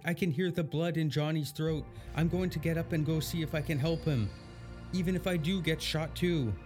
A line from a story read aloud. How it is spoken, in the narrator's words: Nora cried out